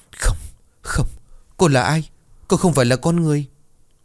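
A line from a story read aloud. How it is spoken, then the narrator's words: Terrified stammer. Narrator (Vietnamese): cậu kinh hãi ngã ngửa ra đất, miệng lắp bắp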